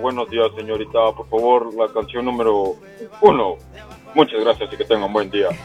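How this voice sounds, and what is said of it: Radio announcer-like voice. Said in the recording (Spanish): “Tengo voz de locutor.”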